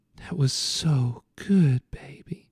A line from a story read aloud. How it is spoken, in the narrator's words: Lola whispered